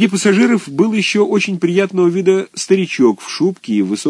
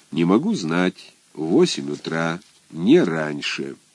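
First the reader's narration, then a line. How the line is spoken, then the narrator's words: Calm answer, superior. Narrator (Russian): Кто-то из начальства отвечал спокойно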